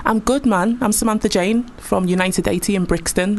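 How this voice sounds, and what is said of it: Liverpool accent. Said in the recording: “The accent's from Liverpool, lad.”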